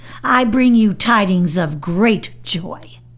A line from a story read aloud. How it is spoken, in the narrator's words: she shouted